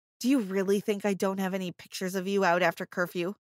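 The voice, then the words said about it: Cold voice. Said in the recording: “In a cold voice,”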